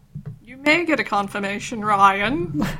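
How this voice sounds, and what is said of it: Put-on posh, pretentious voice. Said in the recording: “It's a weird voice you did. ... That was my attempt at a posh, pretentious voice.”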